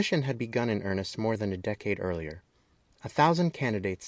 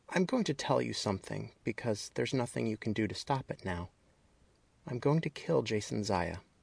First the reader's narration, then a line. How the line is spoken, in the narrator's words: whispered